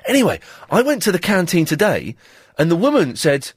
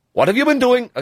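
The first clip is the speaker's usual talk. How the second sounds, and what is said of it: Attempted Welsh accent, sounding Indian. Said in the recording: “I was trying to do a Welsh accent there. It sounded Indian.”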